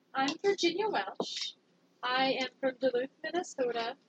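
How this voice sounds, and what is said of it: Good put-on Minnesota accent. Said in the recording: “It's a very good Minnesota accent you're doing there.”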